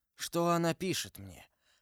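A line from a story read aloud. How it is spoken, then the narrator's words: Weak voice, in pain. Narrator (Russian): сказал Бокингем слабым голосом, истекая кровью и превозмогая страшную боль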